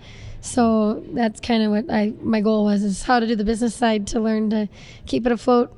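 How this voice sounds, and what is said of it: Slightly hoarse voice. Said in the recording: “I'm a little hoarse sometimes”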